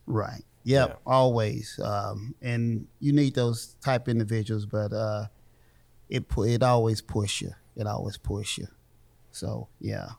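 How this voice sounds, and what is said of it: Country accent. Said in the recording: “if you think I got a country accent”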